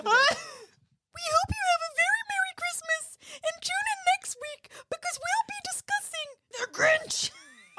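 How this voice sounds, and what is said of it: Miss Piggy impression. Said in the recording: “using a Miss Piggy impersonation ... this really hurts my soul”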